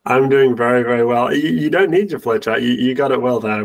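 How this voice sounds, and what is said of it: English accent. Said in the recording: “have the English accent”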